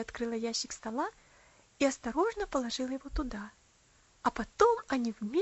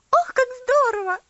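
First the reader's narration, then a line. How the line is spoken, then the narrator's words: Excited exclamation. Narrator (Russian): воскликнула Луси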